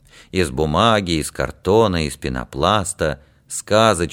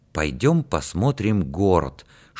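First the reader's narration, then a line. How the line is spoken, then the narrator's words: Whispered suggestion. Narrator (Russian): шепотом предложил Юрик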